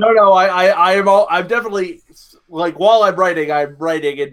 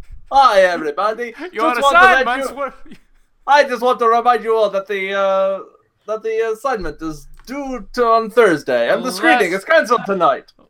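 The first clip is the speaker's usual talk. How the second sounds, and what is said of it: Imitates a cartoon character's accent. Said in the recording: “I have to say it in his accent ... in Dr. Nick's voice ... More Chico Marx.”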